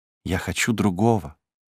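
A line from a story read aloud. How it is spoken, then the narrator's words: Low voice. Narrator (Russian): ответила она вполголоса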